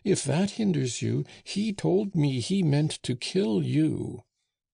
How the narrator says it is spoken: cried Rouget

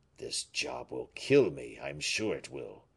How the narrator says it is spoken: muttered Baisemeaux

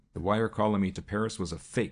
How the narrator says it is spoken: growled John Minnett

